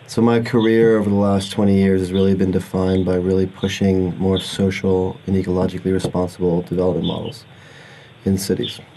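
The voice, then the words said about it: American accent. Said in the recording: “I am from the U.S., as you can hear from my Yankee accent.”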